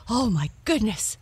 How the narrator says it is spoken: cried Blackie

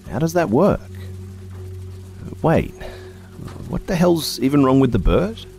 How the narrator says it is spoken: blurting out

